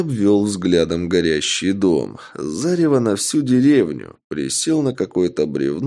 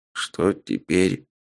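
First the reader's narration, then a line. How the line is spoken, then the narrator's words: Tired pained question. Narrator (Russian): Уставшим голосом спросил Альбинос, болезненно морщась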